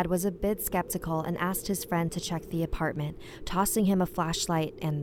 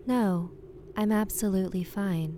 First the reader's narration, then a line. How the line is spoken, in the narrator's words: said the woman very calmly